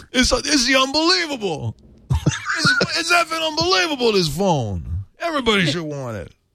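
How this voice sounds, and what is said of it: Brooklyn accent, Andrew Dice Clay impression. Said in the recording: “you got a little New York coming out. ... It's like Andrew Dice Clay over there. ... my Brooklyn accent”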